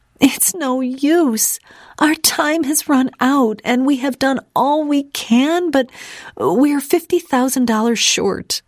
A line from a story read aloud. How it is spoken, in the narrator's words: sobbed